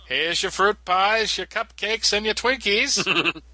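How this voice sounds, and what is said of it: Small-town character voice. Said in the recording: “doing that voice. That's the voice I always do when I'm talking about people in Smallville”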